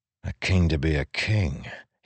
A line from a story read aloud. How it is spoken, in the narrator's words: he muttered